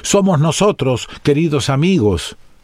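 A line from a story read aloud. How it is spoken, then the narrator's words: Exclaiming from inside. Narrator (Spanish): estos exclamaron desde adentro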